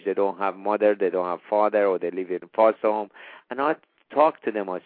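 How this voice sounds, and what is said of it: Non-native English accent. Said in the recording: “with my look, with my accent... you're American, you have better accent”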